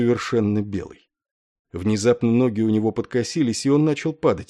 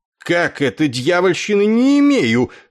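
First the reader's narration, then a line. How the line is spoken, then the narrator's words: Furious thunderous roar, general. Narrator (Russian): сварливо взревел разъяренный вмешательством зятя генерал Дридл, и от раскатов его громоподобного рева задрожали стены инструктажной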